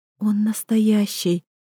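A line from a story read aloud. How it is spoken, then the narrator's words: Breaking into a whisper. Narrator (Russian): Срываюсь на шепот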